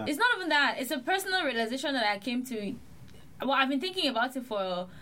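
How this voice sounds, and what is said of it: Slightly African accent. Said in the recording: “now it's kind of like a little more African”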